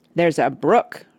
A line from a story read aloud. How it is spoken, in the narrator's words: Rush said